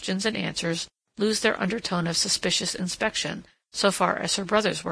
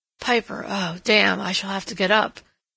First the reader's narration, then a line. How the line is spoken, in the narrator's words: murmured Christopher